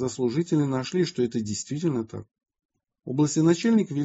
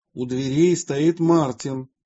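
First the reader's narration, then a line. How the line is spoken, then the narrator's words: Loud voice. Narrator (Russian): громким голосом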